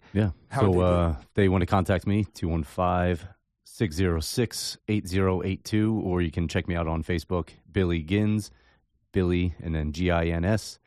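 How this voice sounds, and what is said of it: Deep radio voice. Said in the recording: “He's got that deep voice... He's got a great radio voice... Good radio voice... Very good.”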